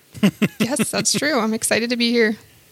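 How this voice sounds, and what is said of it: Nervous, unexcited voice. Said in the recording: “You don't sound excited. You sound a little nervous.”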